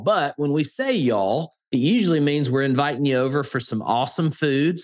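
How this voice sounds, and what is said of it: Southern Alabama accent. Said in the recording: “my Alabama accent ... I am a Southern guy, born and raised here in Alabama ... we are a little lazy with our tongue”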